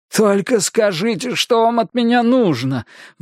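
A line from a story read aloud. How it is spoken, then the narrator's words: Pleading. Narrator (Russian): взмолился Бейкер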